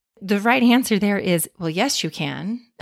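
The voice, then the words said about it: Annoyed tone. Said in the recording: “you can hear the annoyance in my voice.”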